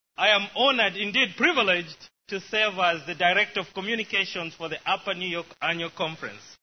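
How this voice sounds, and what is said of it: Zambian accent. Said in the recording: “my wonderful accent, I was born in a wonderful place called Zambia”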